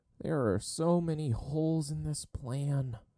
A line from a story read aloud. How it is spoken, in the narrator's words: Sokka moaned